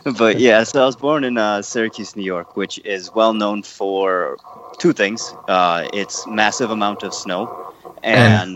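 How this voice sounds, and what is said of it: American accent. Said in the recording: “everyone can tell by my accent, I am American”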